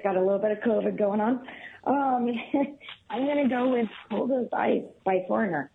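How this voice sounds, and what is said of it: Raspy, hoarse voice. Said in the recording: “Sorry for the raspy voice.”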